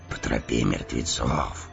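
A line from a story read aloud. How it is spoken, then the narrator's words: Whisper. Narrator (Russian): прошептал Эомер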